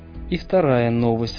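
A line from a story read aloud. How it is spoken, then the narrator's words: Sighing. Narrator (Russian): вздохнул доктор Хаус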